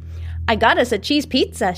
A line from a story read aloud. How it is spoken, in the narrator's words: adds, triumphantly